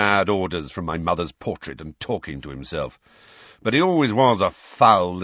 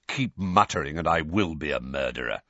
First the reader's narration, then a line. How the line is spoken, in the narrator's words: said Sirius irritably